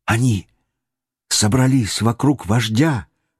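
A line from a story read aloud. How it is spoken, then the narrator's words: Boy whispering. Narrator (Russian): прошептал мальчик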